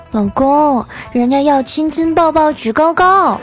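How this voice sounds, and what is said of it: Coquettish, cutesy woman's voice. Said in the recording (Chinese): “嫂子撒娇的声音”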